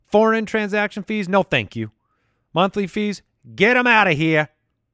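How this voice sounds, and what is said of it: Slight put-on New York accent. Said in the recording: “That was a little bit of a New York accent.”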